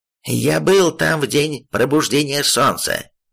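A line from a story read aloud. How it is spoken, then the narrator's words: Rough reply, senior master. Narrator (Russian): грубо ответил старший мастер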